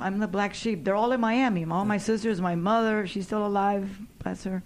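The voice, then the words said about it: Slight Latina accent. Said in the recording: “being a Latina in Hollywood ... I have a slight accent. I never really lost it ... I think it's pretty with the accent”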